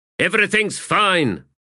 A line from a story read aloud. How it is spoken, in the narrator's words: called out